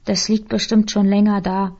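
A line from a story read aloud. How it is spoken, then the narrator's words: Plain. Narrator (German): sagte Markus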